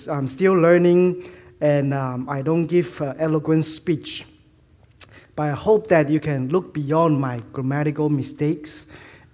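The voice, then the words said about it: Malaysian-Chinese mixed accent. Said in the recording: “my funny accent. It's a combination of accents ... It's like Malaysian plus Chinese, Hong Kong, Fuzhou, mostly Fuzhou”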